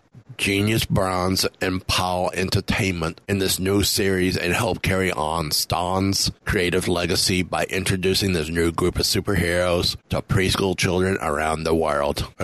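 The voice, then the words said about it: Imitates another person's voice, accent drifting. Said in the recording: “my accent drifted a lot by the end of that sentence... Was an accent?”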